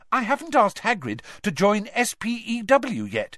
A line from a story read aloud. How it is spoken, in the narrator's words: she said brightly